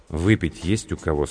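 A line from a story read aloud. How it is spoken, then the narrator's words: Plain. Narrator (Russian): спросил капитан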